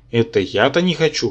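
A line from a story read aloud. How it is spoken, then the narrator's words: Scoffing snort. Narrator (Russian): хмыкнул я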